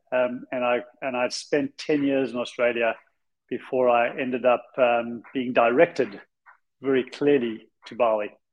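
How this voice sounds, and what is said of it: South African accent. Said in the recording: “I originally came from South Africa. That's the crazy, weird accent that I have.”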